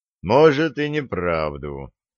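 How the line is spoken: Sighing again. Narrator (Russian): опять вздохнул Олег

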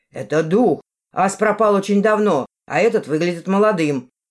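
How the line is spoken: Loud male objection. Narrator (Russian): громко возразил мужской голос

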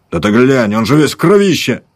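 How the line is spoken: Yelling soldier. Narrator (Russian): заорал солдат

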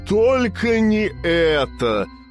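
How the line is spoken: Wailing. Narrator (Russian): взвыл

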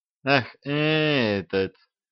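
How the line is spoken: Relieved sigh. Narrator (Russian): облегченно вздохнула Банни

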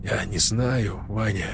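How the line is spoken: Quiet. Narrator (Russian): тихо сказал он

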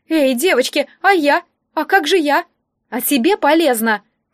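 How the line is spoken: Shouted reply. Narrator (Russian): крикнула в ответ Лекси

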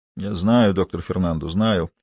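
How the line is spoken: Mumble. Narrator (Russian): пробормотал Фалькон

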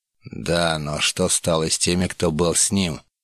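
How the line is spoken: Displeased grumble. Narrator (Russian): недовольно пробурчал Муштуни

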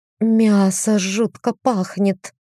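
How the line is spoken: Moaning. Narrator (Russian): простонала я

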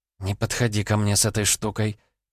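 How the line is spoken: Muttered. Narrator (Russian): пробормотала Ванда

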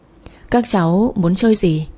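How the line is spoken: Gentle. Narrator (Vietnamese): Lâm nhẹ nhàng bảo

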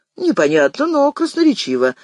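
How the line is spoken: Laughing. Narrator (Russian): засмеялся Шестак

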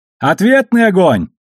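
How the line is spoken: Shouted over radio. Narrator (Russian): прокричал по связи Алекс

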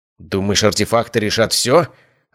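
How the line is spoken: Yelling. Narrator (Russian): орал маг

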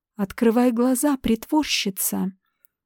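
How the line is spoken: Hoarse, tired voice. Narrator (Russian): раздался хриплый, уставший голос Рипли

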